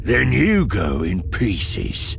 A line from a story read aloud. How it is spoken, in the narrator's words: growls